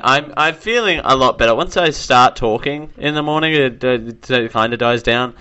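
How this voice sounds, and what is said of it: Weird voice, sore throat. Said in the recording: “my weird voice thing today... My throat feels like it's saying, "Help me!"”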